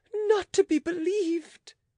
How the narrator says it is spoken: cried the queen in a rage

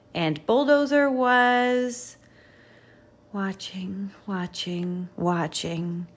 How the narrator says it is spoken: he said with a sigh

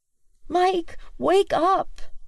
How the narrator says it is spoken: Willow pleads clearly

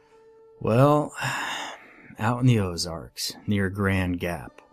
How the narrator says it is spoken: Jerry sighed and said

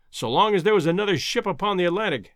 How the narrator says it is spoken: exclaimed Professor Summerlee heartily

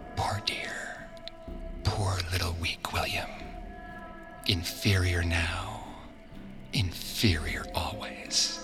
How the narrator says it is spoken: She whispered to him

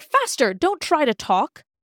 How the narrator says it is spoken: the queen cried

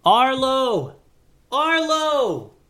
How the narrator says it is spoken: Goose began to yell

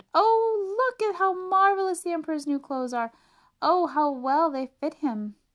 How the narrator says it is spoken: everyone in the street who saw him and all those leaning out the windows exclaimed

